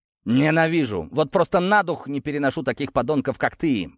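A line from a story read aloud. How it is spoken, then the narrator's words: Shouting. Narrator (Russian): выкрикнул Даниил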